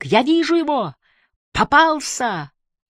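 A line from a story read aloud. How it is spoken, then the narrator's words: Joyful shout. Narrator (Russian): Барбара тоже радостно закричала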